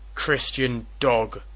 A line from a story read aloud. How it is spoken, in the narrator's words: roared Mordecai the Jew